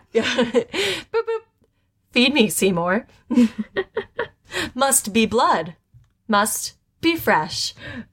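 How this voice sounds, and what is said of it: Imitates Siri voice assistant. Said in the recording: “I don't have a very good Siri impression. I tried my best.”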